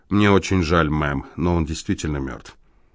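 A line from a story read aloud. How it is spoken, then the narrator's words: Quiet, distinct regional accent. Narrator (Russian): Тихим голосом с отчетливым бруклинским произношением сказал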